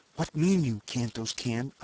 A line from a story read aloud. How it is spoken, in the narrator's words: I whispered